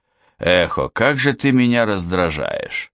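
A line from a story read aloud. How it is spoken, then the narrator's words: Grumble. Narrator (Russian): проворчал Бун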